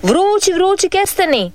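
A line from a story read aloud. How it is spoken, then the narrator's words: Old man calling out. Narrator (Croatian): po cijeli dan viče stari kestenjar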